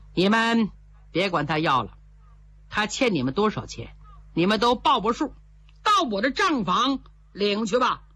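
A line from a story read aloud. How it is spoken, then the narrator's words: Cold and stern. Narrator (Chinese): 员外把脸一沉，冷冷说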